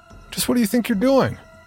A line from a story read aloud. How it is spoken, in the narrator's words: exclaim